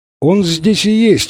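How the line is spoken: Exclaiming. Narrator (Russian): воскликнул Фрэнсис

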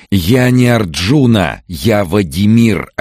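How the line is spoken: Desperate shout. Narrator (Russian): отчаянно крикнул он

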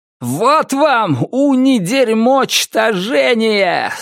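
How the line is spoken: Man yelling. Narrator (Russian): завопил он

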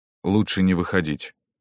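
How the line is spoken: Plain. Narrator (Russian): сказал Шубин

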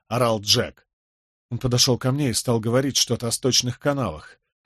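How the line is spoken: Stunned mumble. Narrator (Russian): пробормотал ошеломленный Николас

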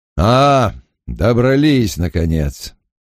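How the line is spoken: Grumbling. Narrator (Russian): проворчал Бен Дайкс

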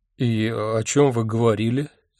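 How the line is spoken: Confused asking. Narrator (Russian): растерянно поинтересовался я

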